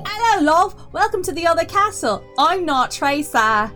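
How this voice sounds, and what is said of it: Poorly done British accent. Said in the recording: “my terrible accent ... My poorly done British accent”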